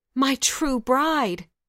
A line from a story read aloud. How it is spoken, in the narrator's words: he cried